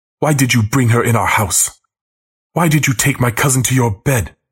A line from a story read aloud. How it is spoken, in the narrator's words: yells at me